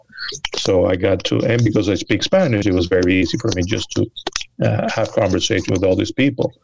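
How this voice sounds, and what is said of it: Accented English. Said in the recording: “I have an accent ... Oh, but you you have an accent”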